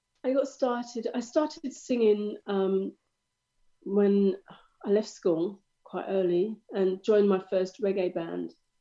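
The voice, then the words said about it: Slightly nasal, congested voice. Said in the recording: “I've got a little bit of a cold ... sorry if I sound a bit nasally.”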